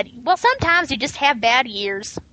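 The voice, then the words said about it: Poor attempt at Southern accent. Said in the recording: “You cannot do a Southern accent. You really can't.”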